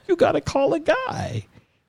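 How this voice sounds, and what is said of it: Voice goes high-pitched. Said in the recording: “did my voice get high”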